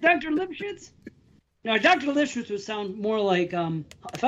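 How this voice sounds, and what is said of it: Usual voice. Nothing is said of it.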